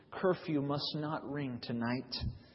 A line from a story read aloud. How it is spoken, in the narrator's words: her lips grew strangely white as she spoke in husky whispers